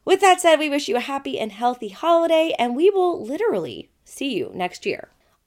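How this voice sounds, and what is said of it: Slightly weird, sick-sounding voice. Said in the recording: “if you think I sound a little weird right now, it's because I'm sick as fuck”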